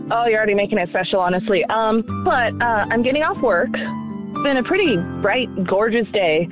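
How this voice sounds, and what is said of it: Excited, emotional, breathless voice. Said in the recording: “Are you always this chipper? ... I've got a little emotional ... Take a deep breath. Take a deep breath here. Relax so I can hear you.”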